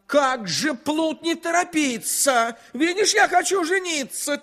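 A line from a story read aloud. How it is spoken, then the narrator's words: King's angry shout. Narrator (Russian): Царь со гневом закричал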